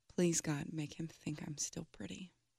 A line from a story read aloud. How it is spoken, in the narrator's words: She often said little prayers quietly, and now she said